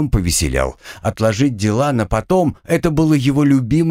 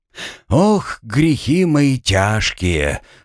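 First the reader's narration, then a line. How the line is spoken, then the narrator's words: Rueful sigh. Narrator (Russian): вслух вздохнул Артем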